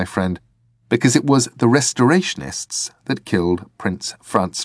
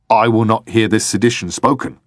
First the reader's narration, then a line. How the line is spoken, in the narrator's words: said Lestrade